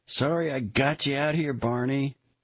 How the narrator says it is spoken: Kennedy shouted

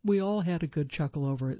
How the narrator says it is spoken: says Spencer

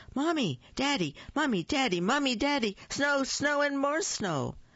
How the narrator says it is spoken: Olivia ran into the kitchen and yelled

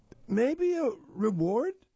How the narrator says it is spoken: squeaked

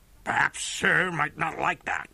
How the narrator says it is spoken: sneered Colonel Proctor

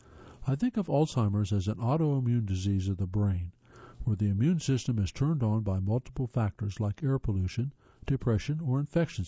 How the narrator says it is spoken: he says

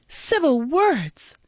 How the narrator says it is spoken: cried the girl, whose passion was frightful to see

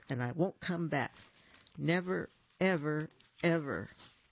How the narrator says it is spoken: Pippin announced in a shaking voice

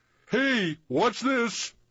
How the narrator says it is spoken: someone in the trombone section holler

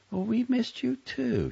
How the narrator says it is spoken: Charlotte said tenderly

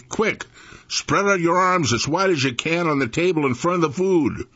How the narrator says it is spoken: Daddy yelled at the preacher and me

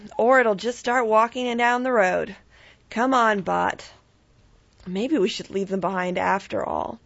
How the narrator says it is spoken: Barbara sighed from the dining room

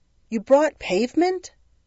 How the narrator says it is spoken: Saint Peter exclaimed

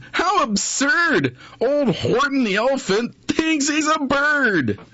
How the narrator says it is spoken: They laughed, and they laughed

